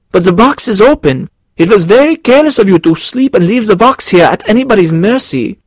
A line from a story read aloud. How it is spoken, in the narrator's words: cried Carl